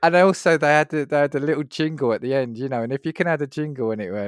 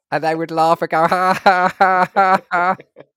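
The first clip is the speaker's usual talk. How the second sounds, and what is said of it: Robot voice laughing impression. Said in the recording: “robots that had these funny voices like this ... That's actually not a bad impression”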